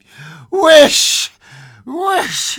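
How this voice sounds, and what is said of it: Strong, loud cry. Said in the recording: “he cried in a strong voice.”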